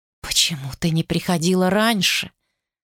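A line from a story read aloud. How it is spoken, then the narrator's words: Whisper. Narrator (Russian): прошептал он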